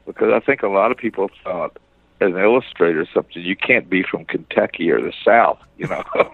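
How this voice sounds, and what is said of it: Southern US accent. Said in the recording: “I am a Southern person ... I have this Southern accent ... I've never put forth a conscious effort to get rid of my accent”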